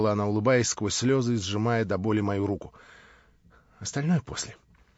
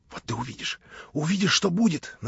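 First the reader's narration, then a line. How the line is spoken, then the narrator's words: Hurried whisper. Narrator (Russian): наскоро шепнула она мне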